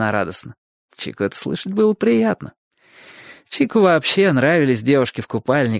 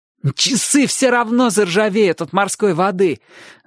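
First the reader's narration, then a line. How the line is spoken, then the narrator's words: Gloating boy's exclamation. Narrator (Russian): злорадно воскликнул мальчик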